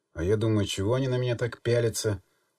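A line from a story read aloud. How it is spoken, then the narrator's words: Sly mocking tone. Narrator (Russian): ехидно улыбнулся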